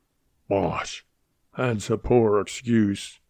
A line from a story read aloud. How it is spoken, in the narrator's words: the man snarled